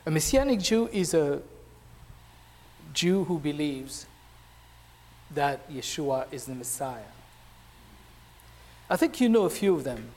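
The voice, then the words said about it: French-accented English. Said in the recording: “If you hear that I have an accent, if you hear an accent, it's because I have one. ... I was born in France from a Jewish Tunisian family.”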